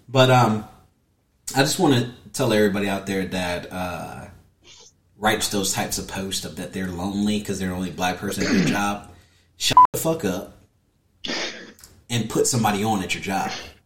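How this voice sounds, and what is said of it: Southern accent, slurred words. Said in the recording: “I have that southern Tampian accent, so I slur words a lot.”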